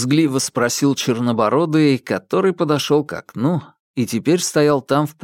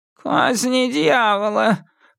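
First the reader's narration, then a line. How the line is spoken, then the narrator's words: Old man's grumble. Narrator (Russian): проворчал старик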